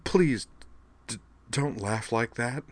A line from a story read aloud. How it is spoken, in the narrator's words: whimpered